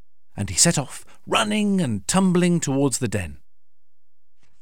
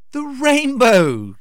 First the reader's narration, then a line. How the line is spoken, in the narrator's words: laughed Little Fox